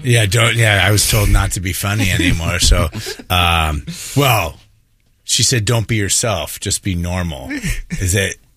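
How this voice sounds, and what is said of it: Gravelly radio DJ voice. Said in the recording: “you have the best East Side DJ voice ... But you do have a DJ voice ... you have a great DJ. That gravel.”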